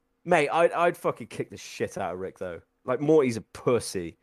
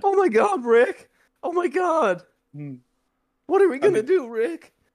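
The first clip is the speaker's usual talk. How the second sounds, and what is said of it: Morty impression. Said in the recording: “when you started doing Morty ... That's actually quite a good accent.”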